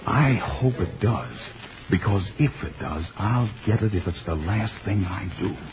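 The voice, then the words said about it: Whispering. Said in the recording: “Why are we whispering? ... I don't know why we're whispering.”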